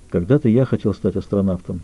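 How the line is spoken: Sad admission. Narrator (Russian): грустно признался

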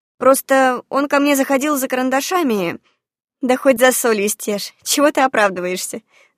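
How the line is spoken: Laughing. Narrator (Russian): засмеялась

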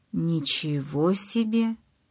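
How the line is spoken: Muttered. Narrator (Russian): пробормотал Эммет

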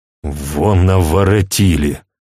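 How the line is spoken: Angry grumble. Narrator (Russian): буркнул сердито

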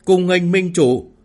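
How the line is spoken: Loud ceremonial shout. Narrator (Vietnamese): Tề Dương Bình cao giọng hô lên

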